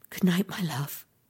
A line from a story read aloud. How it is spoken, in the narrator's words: she whispered